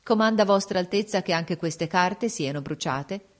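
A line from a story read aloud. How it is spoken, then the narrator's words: Cold address. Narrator (Italian): volta freddamente alla principessa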